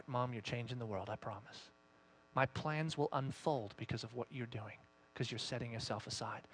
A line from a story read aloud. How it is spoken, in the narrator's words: God will whisper to your heart